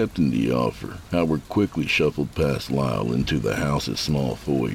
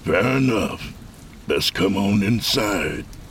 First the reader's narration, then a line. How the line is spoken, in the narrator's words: Snarling at it, said